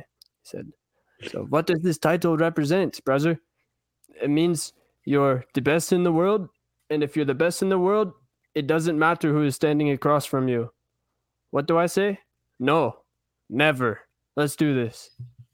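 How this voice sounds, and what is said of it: Imitated Dagestani accent, poorly done. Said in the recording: “I'll read it in the little Dagestani accent ... That was pretty bad reading by me”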